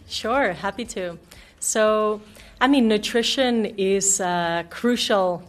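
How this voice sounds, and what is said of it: American or Canadian-sounding accent. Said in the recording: “you sound very American or Canadian”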